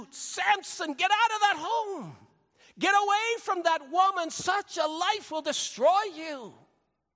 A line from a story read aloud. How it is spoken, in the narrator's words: We want to shout